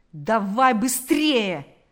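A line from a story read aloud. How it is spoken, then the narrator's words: Policeman shouting. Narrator (Russian): закричал полицейский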